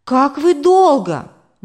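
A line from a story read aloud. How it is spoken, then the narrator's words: Exclaimed. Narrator (Russian): воскликнула мама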